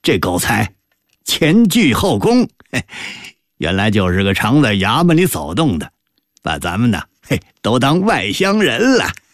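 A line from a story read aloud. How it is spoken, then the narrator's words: Laughing. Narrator (Chinese): 李德全笑对何归柱说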